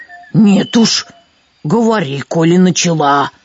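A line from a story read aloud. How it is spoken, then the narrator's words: Ogre's roar. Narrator (Russian): взревел людоед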